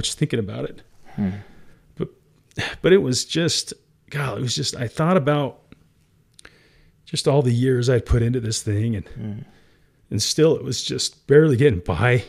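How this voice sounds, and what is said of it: Teary, emotional voice. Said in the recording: “I sobbed in that office ... I'm getting teary now”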